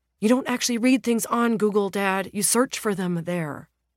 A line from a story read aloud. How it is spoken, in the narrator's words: the son exclaims